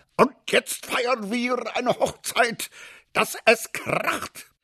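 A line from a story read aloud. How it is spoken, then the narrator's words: Moved, satisfied roar. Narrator (German): Sogar der General war gerührt und brüllte zufrieden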